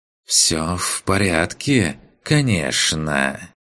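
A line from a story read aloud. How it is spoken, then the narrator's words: Hissed with open irony. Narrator (Russian): В шипении Рииса послышалась ничем не прикрытая ирония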